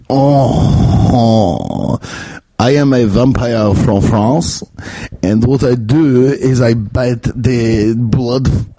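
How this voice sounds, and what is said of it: Mock Eastern European Dracula vampire accent. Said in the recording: “how do French people sound? ... Damn it, now I'm just doing Eastern European. Now I'm actually doing Dracula.”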